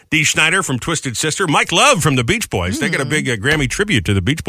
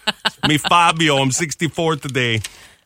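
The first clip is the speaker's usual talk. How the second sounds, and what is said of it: Attempted Fabio accent, sounds like Travolta. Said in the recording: “I sound like John Travolta. ... Got to work on the Fabio accent.”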